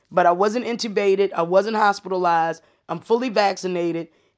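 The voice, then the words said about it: Raspy, hoarse voice. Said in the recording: “you're going to hear me. I'm still a little raspy. ... this COVID cough is no freaking joke”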